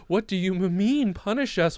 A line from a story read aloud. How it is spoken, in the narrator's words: whined Moonshadow